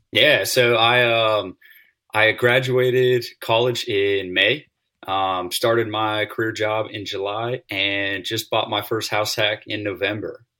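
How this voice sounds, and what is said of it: Southern American accent. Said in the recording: “You got the Southern accent”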